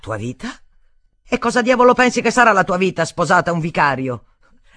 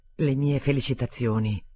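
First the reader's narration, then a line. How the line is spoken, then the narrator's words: Murmur. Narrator (Italian): mormorò Alexander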